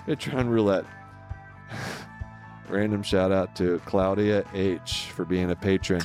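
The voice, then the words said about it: Impression of Rob Gronkowski. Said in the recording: “in my Gronk voice ... Rob Gronkowski, retired tight end for the New England Patriots”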